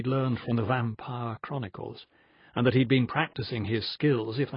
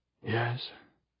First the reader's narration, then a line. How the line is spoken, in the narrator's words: Magnus whispered